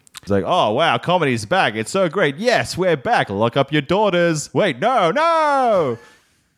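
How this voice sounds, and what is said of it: Mock comedian character voice. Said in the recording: “my impression of a white male comedian who's just had a 3 month break from comedy”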